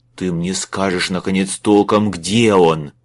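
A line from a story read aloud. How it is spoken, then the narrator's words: Growling. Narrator (Russian): зарычал Майлз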